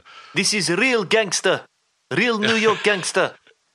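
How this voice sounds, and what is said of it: Weak put-on New York accent. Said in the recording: “Not so good as your New York accent, that one”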